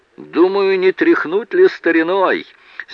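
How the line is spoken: Deadpan. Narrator (Russian): с неподвижным лицом произнес Гарри Рекс

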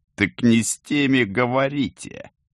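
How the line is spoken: Laughing from behind. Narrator (Russian): засмеялся кто-то у оперативников за спиной

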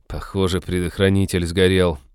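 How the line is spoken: Unhappy voice. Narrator (Russian): несчастным голосом сказал Натан

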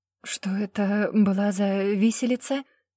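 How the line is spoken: Trembling voice. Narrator (Russian): дрожащим голосом спросила Даша

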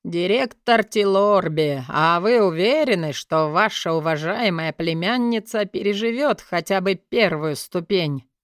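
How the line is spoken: Lazy drawling question. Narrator (Russian): Растягивая слова, лениво поинтересовался знакомый мне голос

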